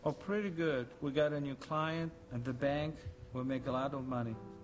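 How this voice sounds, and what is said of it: Foreign accent, unclear origin. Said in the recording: “accent?... No one knows what the hell, what country he's from... sounds maybe German... It could be French.”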